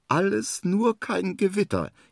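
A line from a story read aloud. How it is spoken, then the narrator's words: Whining. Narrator (German): jammert er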